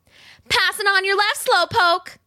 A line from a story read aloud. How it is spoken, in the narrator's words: she yelled, shrieking with laughter, even though her lungs burned with the effort